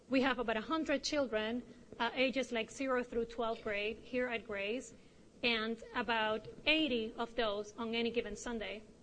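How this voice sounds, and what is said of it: Noticeable accent. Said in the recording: “She's having a hard time over there with my accent”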